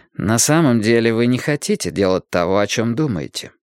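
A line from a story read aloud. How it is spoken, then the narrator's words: Calm, distinct. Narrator (Russian): сказал Мэтью спокойно, но отчетливо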